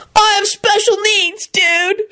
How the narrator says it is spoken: shrieked Kenny

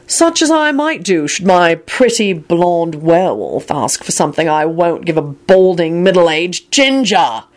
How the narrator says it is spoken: he boomed out

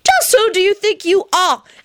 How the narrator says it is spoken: One of the parents shouted

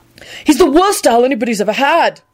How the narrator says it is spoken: Neville yelled hotly

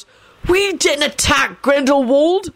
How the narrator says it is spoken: Sirius sputtered out angrily

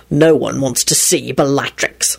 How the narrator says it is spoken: Lupin spat out wrathfully

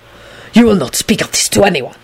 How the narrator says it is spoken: Dragomir hissed furiously to Neville

